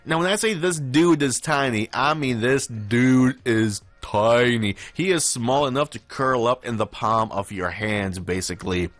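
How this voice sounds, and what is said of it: Noticeable accent. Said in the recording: “This accent does me no favors”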